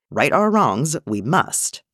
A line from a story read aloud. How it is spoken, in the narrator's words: Yaddle said firmly